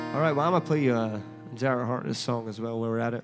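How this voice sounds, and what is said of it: Scottish accent. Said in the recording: “I'm from Scotland originally. ... Got a cool accent, apparently.”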